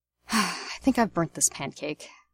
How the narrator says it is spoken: Remus says with a sigh

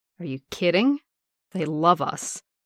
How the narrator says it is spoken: Steve said slowly

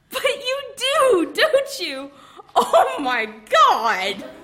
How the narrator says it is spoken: Iron Man said, and went off into another peal of helpless laughter

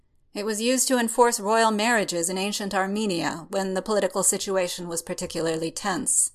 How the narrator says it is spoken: Strange states blandly, as if it should be obvious

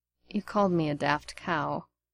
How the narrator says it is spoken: Remus murmured

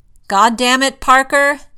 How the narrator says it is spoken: Tony yells from across the room

